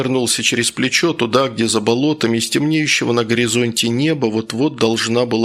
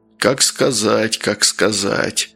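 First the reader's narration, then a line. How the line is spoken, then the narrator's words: Mysterious drawn-out tone. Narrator (Russian): загадочно протянул тот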